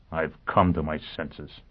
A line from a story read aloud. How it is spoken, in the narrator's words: Foyle answered bitterly